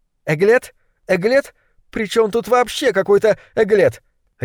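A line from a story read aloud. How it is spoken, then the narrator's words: Barked. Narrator (Russian): рявкнула злокозня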